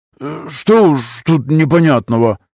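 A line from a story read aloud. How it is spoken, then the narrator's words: Grumbling. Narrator (Russian): пробурчал Вилли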